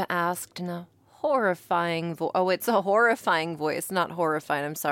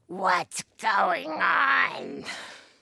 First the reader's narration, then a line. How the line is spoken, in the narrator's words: Genova asked in a horrifying voice